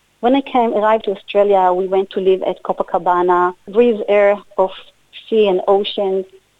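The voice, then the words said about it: Israeli-accented English. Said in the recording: “You of course can hear from my voice and my accent that I born in Israel”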